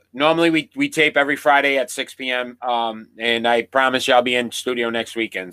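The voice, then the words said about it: Sick-sounding voice. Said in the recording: “I am under the weather today. You probably can hear it in my voice, I'm sure.”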